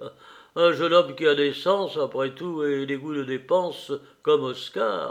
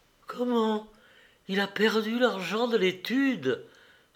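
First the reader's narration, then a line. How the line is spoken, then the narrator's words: Crying out in tears. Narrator (French): s'écria Madame Clapart en pleurant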